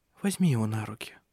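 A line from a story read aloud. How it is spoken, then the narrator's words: Quiet. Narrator (Russian): тихо промолвила Ирия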